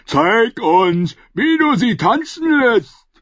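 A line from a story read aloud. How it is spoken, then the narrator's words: Man calling out. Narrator (German): rief einer der Männer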